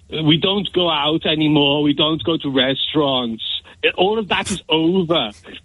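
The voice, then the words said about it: Imitates another person's voice. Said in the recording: “to do an Arnold Schwarzenegger impression”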